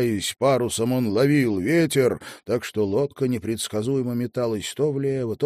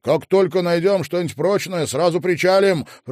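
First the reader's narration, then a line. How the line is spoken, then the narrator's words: Shout. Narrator (Russian): прокричал он Элис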